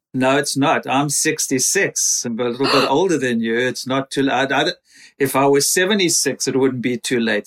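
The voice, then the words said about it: South African accent. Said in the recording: “the accent is from where? ... South Africa.”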